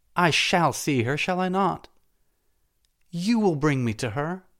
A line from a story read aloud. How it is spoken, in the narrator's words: cried Salambo